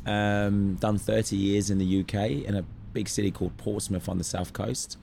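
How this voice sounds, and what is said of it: British accent. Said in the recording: “Judging by your accent, you're not a Cairns local.”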